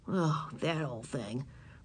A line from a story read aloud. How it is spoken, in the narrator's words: muttered Howie